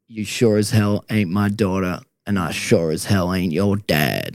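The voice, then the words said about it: Attempted Texan accent. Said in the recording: “I can't do a Texan accent ... That was incredible.”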